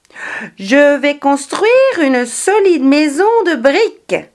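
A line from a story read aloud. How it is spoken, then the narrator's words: Exclaiming. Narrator (French): s'écria-t-il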